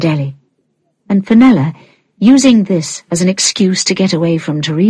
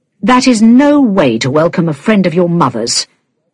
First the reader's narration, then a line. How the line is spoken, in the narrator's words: he said crossly to Ellie